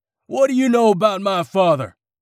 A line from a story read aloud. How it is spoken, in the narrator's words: the man screamed